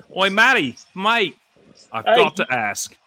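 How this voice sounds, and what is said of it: Australian accent, imitates another person's voice. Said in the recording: “shout out to the Aussies... That's my impersonation of Boyd from Aussie Suns fans... It sounds just like him, yeah.”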